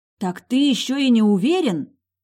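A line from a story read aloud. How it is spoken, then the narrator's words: Roaring. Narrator (Russian): взревела я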